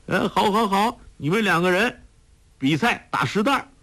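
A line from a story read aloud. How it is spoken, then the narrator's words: Excited exclaiming. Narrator (Chinese): 他夫人拍手叫起来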